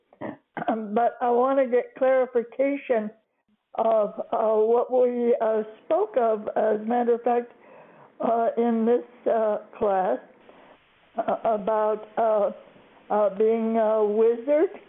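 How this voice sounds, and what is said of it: Weak, fading voice. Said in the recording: “Oh my gosh, I'm losing my voice.”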